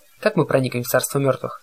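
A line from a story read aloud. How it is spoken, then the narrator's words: Plain. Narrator (Russian): спросил я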